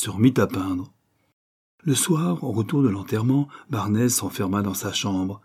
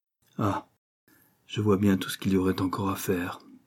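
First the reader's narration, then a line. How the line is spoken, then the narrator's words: Sighed. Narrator (French): soupira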